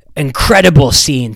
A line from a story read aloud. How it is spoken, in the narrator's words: Tom Jefferson shouted from the side of the pool